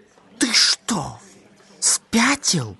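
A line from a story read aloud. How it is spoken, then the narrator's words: Furious whisper. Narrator (Russian): в ярости зашептал Арт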